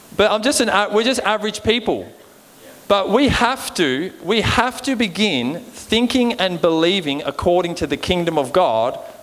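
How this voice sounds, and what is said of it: Australian accent. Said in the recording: “I've got an Aussie accent, I think.”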